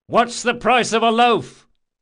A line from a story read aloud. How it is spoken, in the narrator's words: He shouted